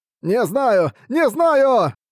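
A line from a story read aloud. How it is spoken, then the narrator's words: Yelling back. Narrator (Russian): орал в ответ Буксил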